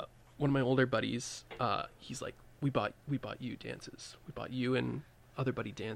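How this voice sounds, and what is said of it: Usual voice. Nothing is said of it.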